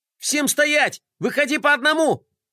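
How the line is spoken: Shouting. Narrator (Russian): закричала Глория

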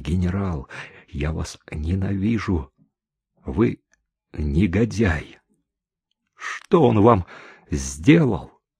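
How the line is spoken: Muffled whisper. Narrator (Russian): Настена, уткнувшись ей в грудь, зашептала

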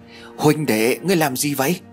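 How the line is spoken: Flustered, trembling, hurried question. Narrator (Vietnamese): Tài xế bối rối run rẩy, liền vội vàng hỏi

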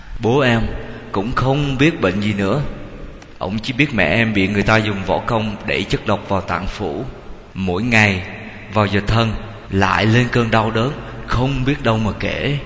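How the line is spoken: Sighing. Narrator (Vietnamese): Lê Văn thở dài

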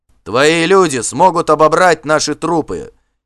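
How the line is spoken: Defiant shout. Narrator (Russian): крикнул Вигмар с вызовом

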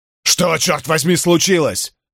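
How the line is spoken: Barked. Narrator (Russian): рявкнул Эрл

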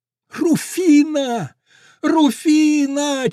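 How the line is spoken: Shouting through cupped hands, near sobbing. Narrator (Russian): чуть не рыдая, закричал ... приставив ладони ко рту

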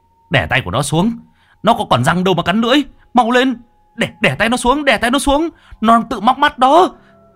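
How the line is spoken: Shouting. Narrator (Vietnamese): Báu hét lên

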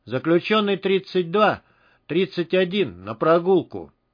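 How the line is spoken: Gloomy. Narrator (Russian): мрачно произнес

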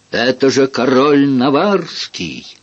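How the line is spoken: Shouted too loudly. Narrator (Russian): крикнул, пожалуй, слишком громко

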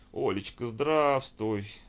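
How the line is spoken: Fake tearful moan. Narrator (Russian): Наигранно простонала она, плаксиво вытянув губки

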